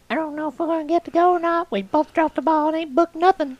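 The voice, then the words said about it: Imitates another person's voice, poorly. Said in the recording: “That's not really a good Shalyn impression, she don't sound like that”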